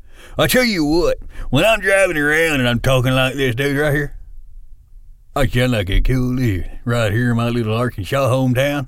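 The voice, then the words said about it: Put-on redneck country accent. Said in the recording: “I got a redneck accent I talk in ... Old country boy.”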